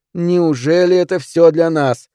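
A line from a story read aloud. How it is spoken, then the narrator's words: Loud singing. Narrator (Russian): пропела она как могла громко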